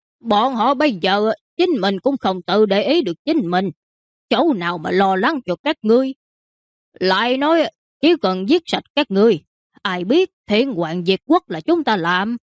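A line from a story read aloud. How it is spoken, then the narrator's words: Bandit laughing loudly. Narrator (Vietnamese): Mã tặc kia cười to hai tiếng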